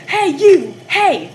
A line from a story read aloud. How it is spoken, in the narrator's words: The driver of the Escort started waving his arms and yelling